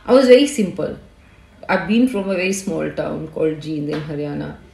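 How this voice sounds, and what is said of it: Indian accent from Haryana. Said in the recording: “you can very well make out from my accent ... You can make out from my accent that I'm from Jind”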